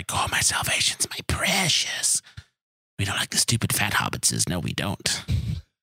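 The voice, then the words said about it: Terrible Gollum impression. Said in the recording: “terrible Gollum impression”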